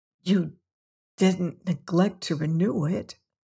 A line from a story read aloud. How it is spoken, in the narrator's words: said hoarsely